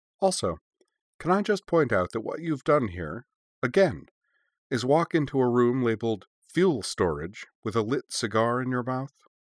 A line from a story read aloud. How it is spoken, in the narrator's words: she added calmly